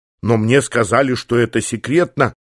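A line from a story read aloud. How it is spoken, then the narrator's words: Hesitant. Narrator (Russian): замялась Мидрахи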